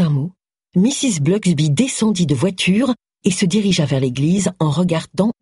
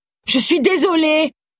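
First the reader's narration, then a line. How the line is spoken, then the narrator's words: Shouting. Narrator (French): lui cria-t-elle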